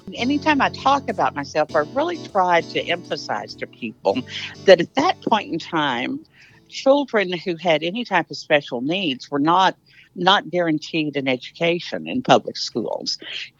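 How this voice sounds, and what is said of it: Texas twang accent. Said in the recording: “as you can tell from the Texas twang, I'm a native Texan, born and bred”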